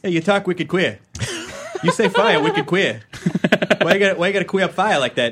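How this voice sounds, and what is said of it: Put-on Boston accent. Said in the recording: “Why are you talking like that? ... That's good. ... it's not bad. ... So I can insult people with a Boston accent.”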